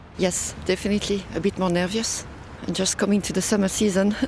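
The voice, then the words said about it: Speaks with a non-local accent. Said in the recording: “As you can hear with my accent”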